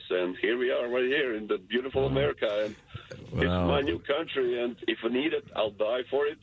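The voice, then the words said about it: Russian-sounding accent. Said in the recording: “you have Russian accent”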